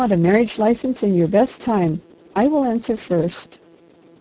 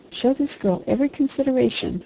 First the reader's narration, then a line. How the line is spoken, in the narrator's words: whispered the harvester